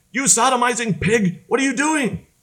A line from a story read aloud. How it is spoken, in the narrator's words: Alejo screamed